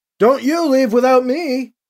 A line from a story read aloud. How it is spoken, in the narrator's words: he shouts back to Drex